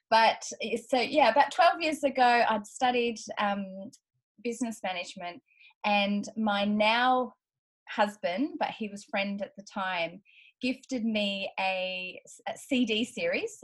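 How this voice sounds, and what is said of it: Australian accent. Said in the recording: “as you can hear from my accent, I'm Australian.”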